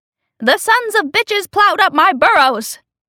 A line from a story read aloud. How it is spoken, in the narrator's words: she yells